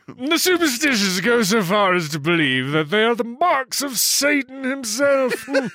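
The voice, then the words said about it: Pleasing accent while reading aloud. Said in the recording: “I'm just drinking that accent in. Just keep going. It's perfect.”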